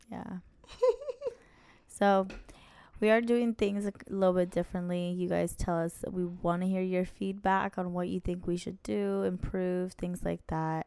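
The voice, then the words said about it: Hoarse, sick-sounding voice. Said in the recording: “I'm a little sicky ... I lost my voice”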